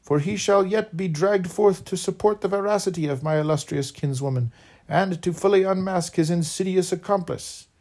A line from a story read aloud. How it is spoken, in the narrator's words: exclaimed Buchan